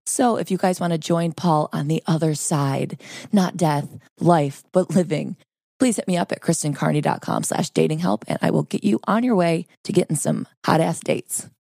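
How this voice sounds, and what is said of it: Hoarse, sore-throat voice. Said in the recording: “Forgive my voice. I've got a sore throat.”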